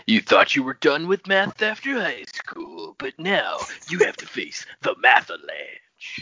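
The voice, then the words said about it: Deep announcer voice. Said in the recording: “That's a good announcer voice ... your deep announcer voice”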